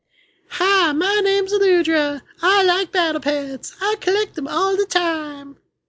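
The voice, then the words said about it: Imitates another person's voice. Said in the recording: “my Aludra impression ... I am not Mr. Hanky, and I am really upset that that's how you made me sound.”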